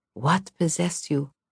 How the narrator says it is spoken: she whispered

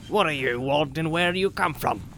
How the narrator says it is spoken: he asked gruffly

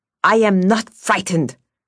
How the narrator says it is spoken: snapped Vasya

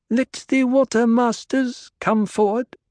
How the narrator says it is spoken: Cheney said, with only the slightest quaver of uncertainty in her girl-child voice

